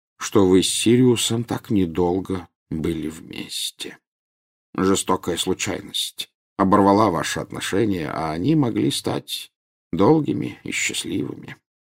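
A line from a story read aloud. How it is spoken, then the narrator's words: Quiet. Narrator (Russian): тихо сказал Дамблдор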